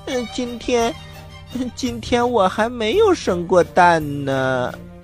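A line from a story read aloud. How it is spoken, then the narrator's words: Shy, quiet. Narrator (Chinese): 鸭妈妈难为情的小声的说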